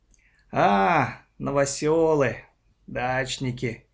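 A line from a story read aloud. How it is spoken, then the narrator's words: Lazy drawl through teeth. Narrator (Russian): лениво процедил Архип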